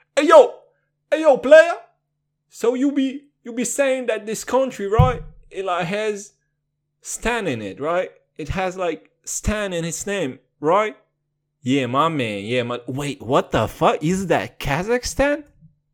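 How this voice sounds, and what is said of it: Put-on Black American accent. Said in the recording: “they talk with a black accent”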